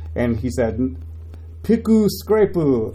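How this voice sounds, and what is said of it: Put-on Japanese-accented English, poorly done. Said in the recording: “my terrible impression of what a Japanese person speaking in English might sound like”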